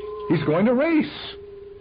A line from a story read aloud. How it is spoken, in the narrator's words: someone screamed